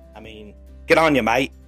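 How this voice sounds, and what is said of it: Put-on Australian accent. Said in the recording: “my best Australian accent”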